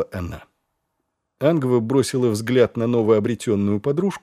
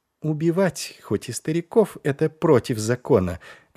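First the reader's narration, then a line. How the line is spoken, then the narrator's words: Plain. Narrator (Russian): ответила Ангва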